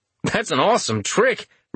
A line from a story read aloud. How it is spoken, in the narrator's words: Richter exclaimed